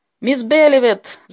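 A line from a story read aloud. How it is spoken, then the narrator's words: Shouting. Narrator (Russian): закричал кто-то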